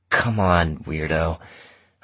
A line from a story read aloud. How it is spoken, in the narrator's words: I said, but my voice came out strained